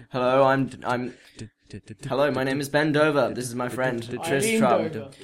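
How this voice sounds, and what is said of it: Mock-serious newsreader voice. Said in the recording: “we must make our serious voices. Serious.”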